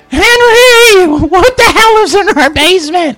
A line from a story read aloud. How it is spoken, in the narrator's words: he's just screaming